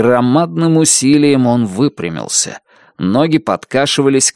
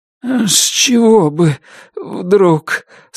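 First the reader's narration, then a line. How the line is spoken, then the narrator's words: Shaky, trembling voice. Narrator (Russian): сказал Туз нетвердым голосом, дрожавшим в такт сбивчивому сердцебиению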